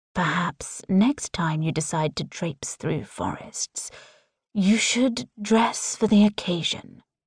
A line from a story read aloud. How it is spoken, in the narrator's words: Tristan says, his voice soothing my skin like a soft caress